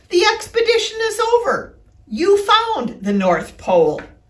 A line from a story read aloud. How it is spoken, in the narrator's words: Christopher Robin says excitedly